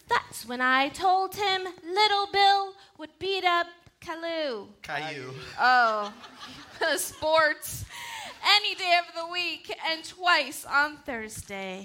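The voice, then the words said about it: Funny put-on accent. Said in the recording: “Let's read it in a funny accent.”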